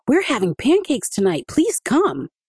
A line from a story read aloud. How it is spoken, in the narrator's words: Adika blurted out